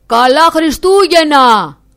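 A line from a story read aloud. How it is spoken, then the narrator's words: Man calling farewell. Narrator (Greek): του φώναξε ο άντρας αποχαιρετώντας τον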